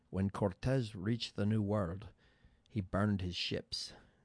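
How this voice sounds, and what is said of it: Sean Connery impression, Scottish accent. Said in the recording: “the late Sean Connery said ... That's my attempt at Scottish accent.”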